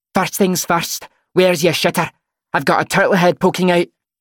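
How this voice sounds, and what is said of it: Gruff Scottish accent, Fat Bastard impression. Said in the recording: “puts on a gruff Scottish accent. ... Fat bastard”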